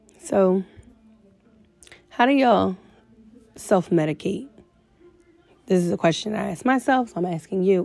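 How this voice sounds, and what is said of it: Raspy, rough voice. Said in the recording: “excuse my voice. I'm getting over a little cold, so it's a little raspy, a little rough”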